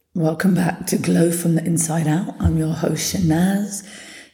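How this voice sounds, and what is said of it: Hoarse, partly lost voice. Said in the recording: “as you can hear, I've lost my voice a little bit... yesterday I could barely speak”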